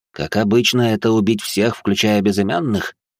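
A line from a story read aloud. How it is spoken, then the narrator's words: Fat man's snort. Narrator (Russian): хмыкнул толстяк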